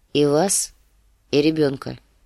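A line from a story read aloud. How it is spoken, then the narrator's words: Grim answer. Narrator (Russian): ответил мрачно сир Джорах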